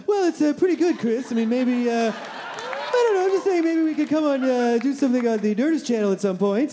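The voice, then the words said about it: Imitates another person's voice. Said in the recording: “you do a fantastic Kevin McDonald impression”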